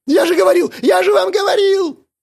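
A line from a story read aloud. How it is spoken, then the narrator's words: Near-shrieking. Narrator (Russian): Пленник почти визжал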